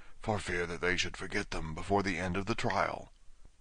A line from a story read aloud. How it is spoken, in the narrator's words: the griffin whispered in reply